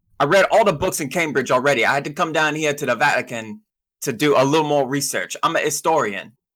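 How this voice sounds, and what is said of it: Working-class character accent. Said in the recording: “my voice, my accent, I sound kind of downstairs”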